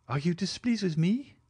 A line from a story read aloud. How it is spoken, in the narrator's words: cried Valentine in astonishment